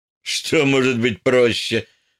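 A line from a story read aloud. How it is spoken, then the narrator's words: Laughing. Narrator (Russian): рассмеялся майор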